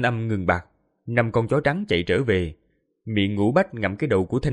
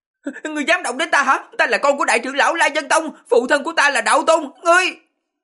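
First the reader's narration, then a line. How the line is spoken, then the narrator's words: Cracking shrill scream. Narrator (Vietnamese): Tiếng hét vang lên, thanh âm biến giọng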